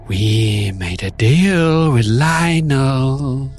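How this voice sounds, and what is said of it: Creepy character voice. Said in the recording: “creepy voice”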